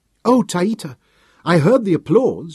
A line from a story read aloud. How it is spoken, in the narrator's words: greeted happily